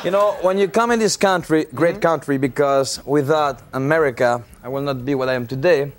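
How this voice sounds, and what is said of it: Speaks with a foreign accent. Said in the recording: “I came here with an accent... You came here with an accent... I still have it?”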